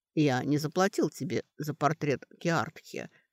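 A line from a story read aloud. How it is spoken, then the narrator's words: Calm. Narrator (Russian): спокойно сказал он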